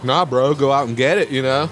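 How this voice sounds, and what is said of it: Put-on surfer bro accent. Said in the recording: “That was a white guy accent ... He was not from Cali ... You weren't bro-ing it up? ... Some surfer culture, bro”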